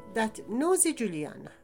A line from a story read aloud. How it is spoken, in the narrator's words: suddenly exclaimed